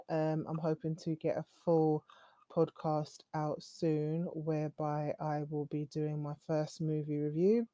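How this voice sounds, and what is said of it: British accent. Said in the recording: “I'll try and stay true to my British core, if you can hear from my accent. This is a British accent”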